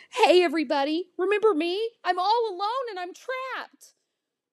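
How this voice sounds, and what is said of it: Pitiful whining voice. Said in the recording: “I whine in my most pitiful voice.”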